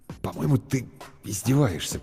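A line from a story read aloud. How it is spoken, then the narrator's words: Unsure mutter. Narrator (Russian): пробормотал Бергман неуверенно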